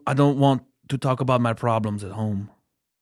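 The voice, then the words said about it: Imitates another person's voice, foreign accent. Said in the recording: “I don't like sad Rusev... It sounds Italian... It sounds like light Austrian.”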